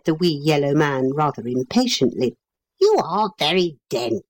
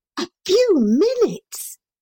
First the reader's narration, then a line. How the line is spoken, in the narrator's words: gasped Neville